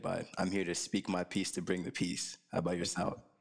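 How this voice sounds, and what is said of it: Slightly raspy voice. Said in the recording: “My voice is a little raspy because of the protest yesterday”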